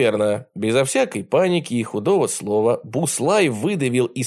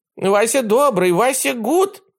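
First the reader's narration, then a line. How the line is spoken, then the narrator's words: Hopeless squeak. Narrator (Russian): безнадежно пискнул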